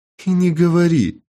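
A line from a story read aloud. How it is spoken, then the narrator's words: Female laughter. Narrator (Russian): рассмеялась Изольда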